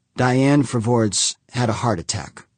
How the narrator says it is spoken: Humphreys said, struggling to keep his voice even

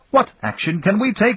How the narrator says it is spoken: shouted the Minister of Trade

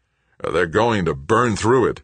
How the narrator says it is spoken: Greg said, his voice shaking

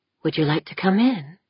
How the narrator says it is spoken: asked in a breathy whisper

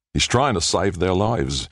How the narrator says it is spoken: Little John said

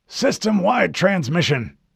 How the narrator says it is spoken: Admiral Whitcomb barked to Haverson

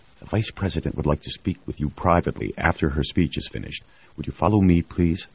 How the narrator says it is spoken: one of the vice president's aides bent over to whisper

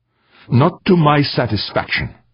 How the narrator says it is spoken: snapped Urbain

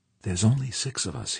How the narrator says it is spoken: he said, his voice low and shaky

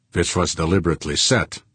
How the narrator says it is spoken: Fuchs said

